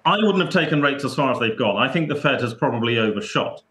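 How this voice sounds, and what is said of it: Speaks with a foreign accent. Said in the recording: “sadly with my accent I'm not allowed to do that”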